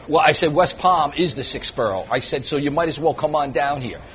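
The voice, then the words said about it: New York accent. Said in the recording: “If you can't tell from his accent, ... is a native New Yorker”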